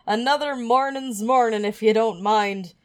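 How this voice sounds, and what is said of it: Bad exaggerated Irish brogue. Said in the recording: “in a thick Irish brogue, which I just fucking murdered. That's not an Irish brogue. ... That's a leprechaun with a concussion.”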